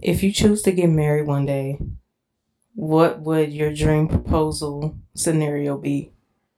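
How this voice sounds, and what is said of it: Low, sultry sexy voice. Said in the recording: “my little sexy voice though, my little low tone voice”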